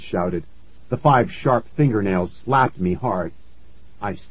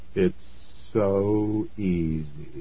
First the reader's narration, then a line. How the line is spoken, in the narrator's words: he said softly